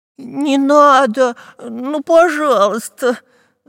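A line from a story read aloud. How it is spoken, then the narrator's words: Whimpering. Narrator (Russian): захныкал Дырка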